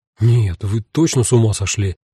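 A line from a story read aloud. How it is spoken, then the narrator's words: Confused muttering. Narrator (Russian): растерянно пробормотал Квитни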